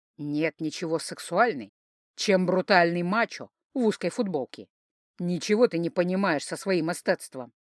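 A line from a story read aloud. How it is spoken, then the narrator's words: Good-natured laughing deep voice. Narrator (Russian): Фам беззлобно хохотнул, расплылся в улыбке и пробасил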